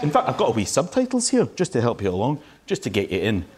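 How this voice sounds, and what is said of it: Thick Scottish Highlands accent. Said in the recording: “Are you Scottish? ... I am. I'm from the Highlands. ... I love your accent. ... Yes, it's quite intense. Some people don't understand the accent because it's quite thick.”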